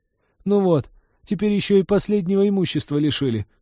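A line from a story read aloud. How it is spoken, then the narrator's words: Pitiful sobbing. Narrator (Russian): всхлипнул падла, привычно пытаясь давить на жалость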